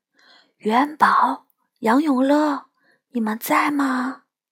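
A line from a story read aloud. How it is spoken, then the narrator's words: Soft question. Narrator (Chinese): 轻声地问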